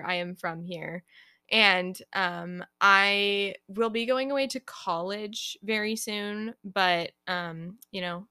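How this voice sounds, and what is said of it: California accent, says 'like' often. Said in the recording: “I have a California accent, and I say like all the time”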